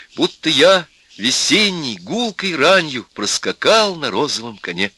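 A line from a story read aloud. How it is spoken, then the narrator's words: Uncertain recitation. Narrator (Russian): неуверенно сказала соседка и прочитала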